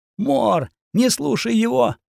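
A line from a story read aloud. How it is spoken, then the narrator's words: Tearful pleading young woman. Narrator (Russian): взмолилась девушка, и по щеке ее потекли слезы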